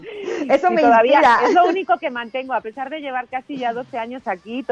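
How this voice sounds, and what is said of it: Slight Spanish (Spain) accent. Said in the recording (Spanish): “me encanta tu acento ... todavía me queda un poquito del acento español que no se me quita”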